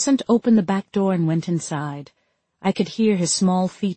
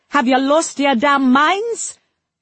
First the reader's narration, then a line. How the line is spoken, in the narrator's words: I screamed so loud